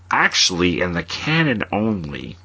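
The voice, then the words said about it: Nerdy character voice. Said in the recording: “Did you just try to do a nerd voice?”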